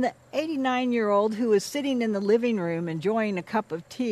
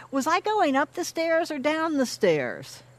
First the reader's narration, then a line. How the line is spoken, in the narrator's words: she yells to her sisters